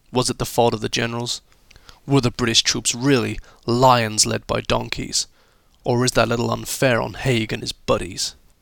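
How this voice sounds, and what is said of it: Poor put-on American accent. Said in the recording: “my rather appalling, appalling um, American accent”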